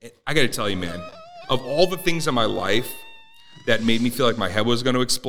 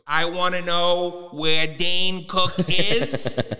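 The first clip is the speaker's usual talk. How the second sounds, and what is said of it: Imitates another person's voice. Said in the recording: “It's such a good impression... the telethon voice that you would watch every Labor Day”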